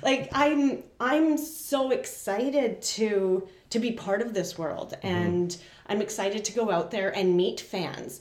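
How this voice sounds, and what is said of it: Choked-up, emotional voice. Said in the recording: “I'm getting choked up just thinking about it”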